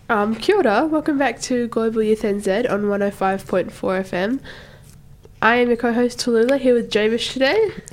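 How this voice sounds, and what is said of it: Sick voice with a cold. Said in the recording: “if you can hear it in my voice, I am sick at the moment ... it's an obvious cold. Like you can hear in my voice. Like I was hacking my lungs up.”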